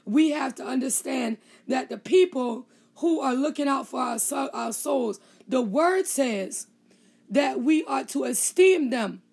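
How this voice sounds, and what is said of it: Voice sounds a little rough. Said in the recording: “My voice is a little messed up this morning”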